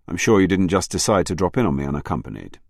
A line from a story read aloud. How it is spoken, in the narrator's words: Ashcroft said, his tone even